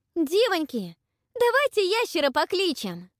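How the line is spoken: Ringing shout. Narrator (Russian): Истома звонко крикнула

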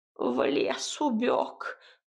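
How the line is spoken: Creaky voice. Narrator (Russian): проскрипела избушка

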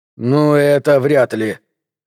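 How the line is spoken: Hoarse voice. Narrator (Russian): хрипло проговорил Гарденер

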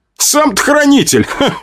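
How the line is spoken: Short laugh. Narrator (Russian): хохотнул я

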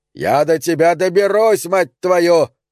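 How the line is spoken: Roaring farmer. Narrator (Russian): взревел фермер

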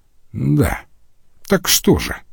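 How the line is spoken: Plain. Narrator (Russian): спросил он

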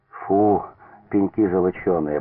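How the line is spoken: Relieved sigh. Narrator (Russian): облегченно вздохнул Филипп Петрович

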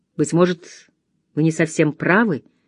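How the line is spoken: Gentle objection. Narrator (Russian): мягко возразил Фо

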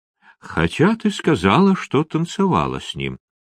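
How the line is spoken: Thoughtful. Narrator (Russian): задумчиво произнес

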